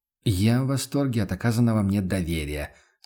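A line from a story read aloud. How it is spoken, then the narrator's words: Gloomy. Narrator (Russian): согласился охотник мрачно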